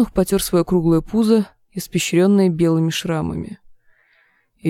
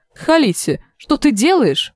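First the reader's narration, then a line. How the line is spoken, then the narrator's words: Exclaiming. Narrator (Russian): воскликнула Ири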